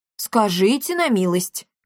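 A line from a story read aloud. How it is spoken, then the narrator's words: Scornful snort. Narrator (Russian): фыркнул Триш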